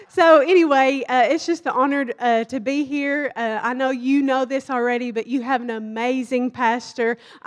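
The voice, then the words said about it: Thick Kentucky accent. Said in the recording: “my thick accent. And I'm from Kentucky”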